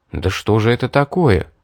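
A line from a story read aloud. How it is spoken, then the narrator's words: Muttering. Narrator (Russian): пробормотал я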